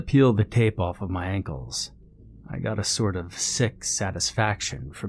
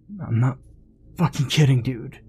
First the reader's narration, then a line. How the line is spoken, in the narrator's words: Billy groaned